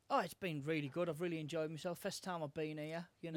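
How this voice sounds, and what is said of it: Northeast English accent. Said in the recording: “you sound a bit funny yourself with your accent ... I'm from Hartlepool, which isn't far from South Shields.”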